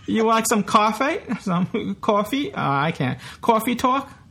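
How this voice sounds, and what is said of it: Exaggerated put-on New York accent. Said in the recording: “Here with my New York accent ... a New Yorker trying to do a New York accent. I probably sound nothing like New York now when I'm doing the accent”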